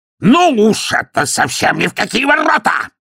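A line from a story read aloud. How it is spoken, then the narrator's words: Barked. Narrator (Russian): рявкнул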